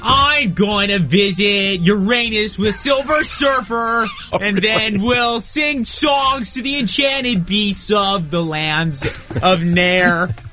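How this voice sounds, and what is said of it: Snarling imitation of another person's voice. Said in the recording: “that impression for him ... I don't sound like that at all. Why do people make me sound all snarling like that?”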